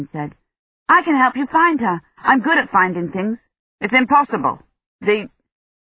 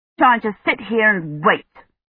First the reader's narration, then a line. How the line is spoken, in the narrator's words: he said bitterly